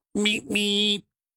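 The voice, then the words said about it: Imitates a horn, poorly. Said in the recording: “my terrible impersonation of the horn on the Bible bus”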